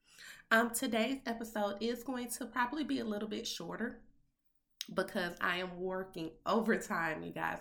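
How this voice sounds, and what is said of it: Congested, under-the-weather voice. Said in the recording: “I am a little under the weather ... it sounds like I'm a little congested, I'm just going to be honest, I am”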